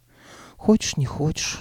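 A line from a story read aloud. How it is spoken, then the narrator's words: Sigh. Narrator (Russian): она вздохнула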